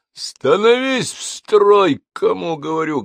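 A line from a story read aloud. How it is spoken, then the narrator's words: Barking command. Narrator (Russian): гаркнул Петр на женщин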